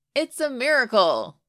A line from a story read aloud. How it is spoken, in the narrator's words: Kip shouted, laughing